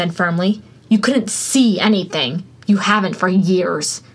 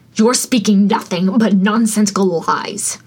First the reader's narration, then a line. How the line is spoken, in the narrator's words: All Might growled